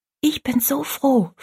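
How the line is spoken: Whisper. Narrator (German): flüsterte Rosalie

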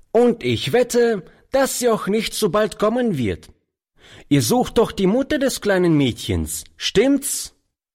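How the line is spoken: Boy calling out. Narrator (German): rief der Junge dem alten Mann zu

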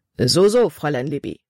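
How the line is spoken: Plain. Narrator (German): sagte er

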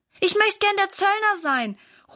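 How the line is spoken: Calling out. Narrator (German): ruft Valentin

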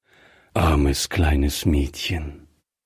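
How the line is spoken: Said gently. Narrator (German): sagte Griffier sanft

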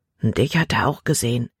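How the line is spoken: Quiet warning. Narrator (German): warnte Caleb mit leiser Stimme

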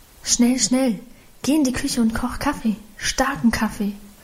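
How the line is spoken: Urgent murmur. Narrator (German): raunte sie ihrem Mann zu

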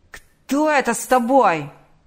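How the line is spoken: Yelling. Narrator (Russian): заорал он

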